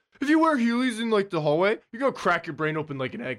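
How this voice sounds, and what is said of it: Impersonates a schoolteacher's voice. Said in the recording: “my teacher impersonation.”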